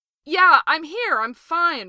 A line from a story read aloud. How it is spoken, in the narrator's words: Ray hollers back